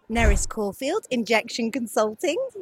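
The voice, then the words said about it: Put-on radio announcer voice. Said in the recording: “my radio voice”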